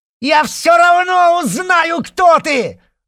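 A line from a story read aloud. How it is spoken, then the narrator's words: Yelling after someone. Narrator (Russian): заорала вдогонку Белохвостикова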